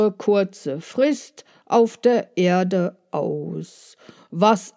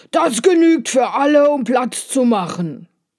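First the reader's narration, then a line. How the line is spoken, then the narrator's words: Shout. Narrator (German): schrie er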